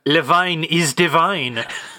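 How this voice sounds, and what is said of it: Poor put-on foreign accent. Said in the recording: “we're bad at accents”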